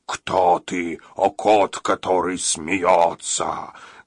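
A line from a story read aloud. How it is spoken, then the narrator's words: Huge dog angry growl. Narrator (Russian): огромный мастиф сердито прорычал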